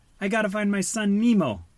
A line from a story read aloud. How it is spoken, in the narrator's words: screamed Marlin